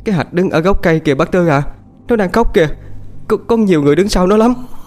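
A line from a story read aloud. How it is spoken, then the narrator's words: Trembling frightened voice. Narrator (Vietnamese): Cô chim run run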